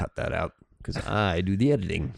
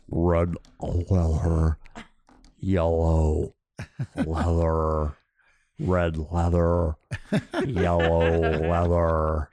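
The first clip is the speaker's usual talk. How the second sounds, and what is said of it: Imitates another person's voice. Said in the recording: “my vocal exercise impersonation”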